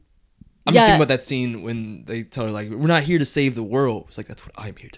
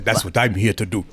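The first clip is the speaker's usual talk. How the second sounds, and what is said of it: Put-on African accent. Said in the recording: “What was with that accent, though? ... You sound real African.”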